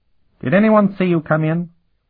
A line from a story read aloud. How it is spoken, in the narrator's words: the big-nosed man asked nervously